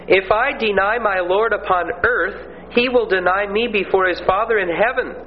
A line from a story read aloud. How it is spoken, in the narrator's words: Brown replied